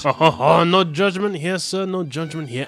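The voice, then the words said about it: Put-on East Asian accent. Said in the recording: “my Far East accent”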